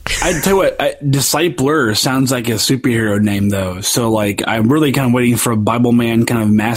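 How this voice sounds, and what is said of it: Usual voice. Nothing is said of it.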